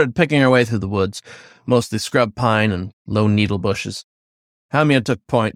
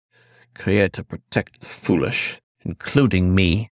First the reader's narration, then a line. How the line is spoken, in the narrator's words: Then more softly